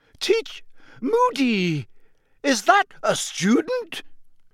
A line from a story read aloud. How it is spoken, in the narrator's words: shrieked Professor McGonagall